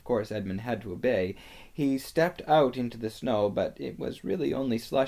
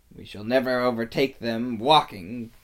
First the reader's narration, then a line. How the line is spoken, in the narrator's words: growled the dwarf